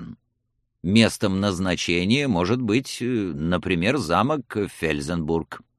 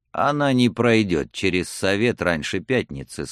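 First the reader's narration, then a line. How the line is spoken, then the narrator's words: Calm objection. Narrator (Russian): спокойно возразил Гондремарк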